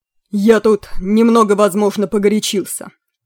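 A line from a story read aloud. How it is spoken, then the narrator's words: Booming voice. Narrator (Russian): сказал Курой громовым голосом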